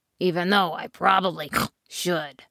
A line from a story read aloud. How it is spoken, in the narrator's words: snorted the pig